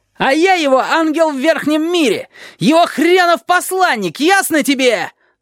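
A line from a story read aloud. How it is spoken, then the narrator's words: Loud yelling. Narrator (Russian): Завопил он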